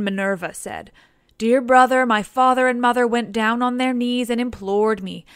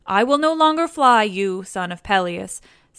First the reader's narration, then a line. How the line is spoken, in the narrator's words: said